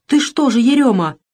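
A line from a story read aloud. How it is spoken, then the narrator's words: Startled, frightened. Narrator (Russian): испуганно встрепенулась Авдотья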